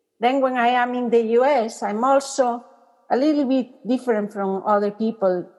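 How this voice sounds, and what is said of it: Foreign accent in English. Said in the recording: “sometimes my accent, you know, especially when I read poetry... People don't understand my words well.”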